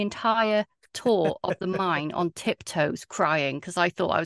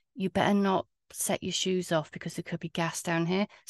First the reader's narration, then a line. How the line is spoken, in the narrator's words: he whispered to me